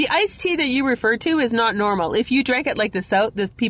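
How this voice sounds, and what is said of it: Usual voice. Nothing is said of it.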